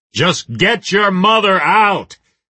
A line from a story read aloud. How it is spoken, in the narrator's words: Reacher shouted